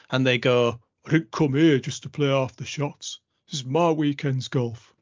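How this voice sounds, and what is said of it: Moaning grumpy club member voice. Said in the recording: “You've done an offensive impression... Just a moan. Just a club member... Probably should have just done it in my own voice”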